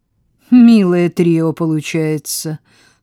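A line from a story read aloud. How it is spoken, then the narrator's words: Dry. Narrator (Russian): сухо сказала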